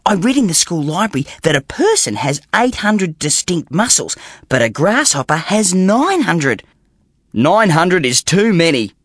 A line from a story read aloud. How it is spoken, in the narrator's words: said his father crossly